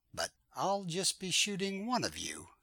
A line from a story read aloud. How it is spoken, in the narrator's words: I said